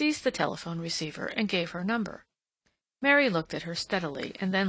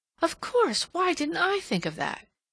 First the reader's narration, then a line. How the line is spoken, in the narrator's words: Her strained expression relaxed, and exclaiming